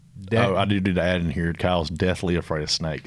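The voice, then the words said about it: Country Mississippi Southern accent. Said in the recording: “I'm from Mississippi. Y'all can hear it in my talk... i talk country as can be”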